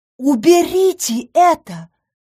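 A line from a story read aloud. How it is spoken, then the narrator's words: Indignant exclamation. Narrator (Russian): воскликнула я, чувствуя, как в душе поднимается волна возмущения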